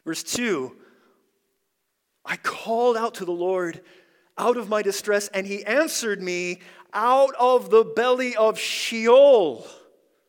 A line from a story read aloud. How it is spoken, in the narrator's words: I cried